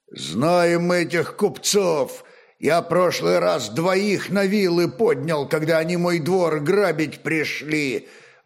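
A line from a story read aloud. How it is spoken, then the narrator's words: Grim, mighty man. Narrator (Russian): мрачно молвил могучий Словен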